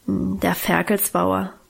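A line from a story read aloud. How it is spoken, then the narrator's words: Embarrassed grumble. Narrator (German): brummte Guste noch verlegener, mit gesenktem Kopf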